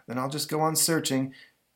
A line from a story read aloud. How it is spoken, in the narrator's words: Zatanna says, sighing